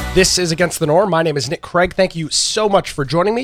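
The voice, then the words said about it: Congested, nasal voice. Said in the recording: “I'm sure you can hear it in my voice ... apologies for sounding a bit congested and nasally this evening”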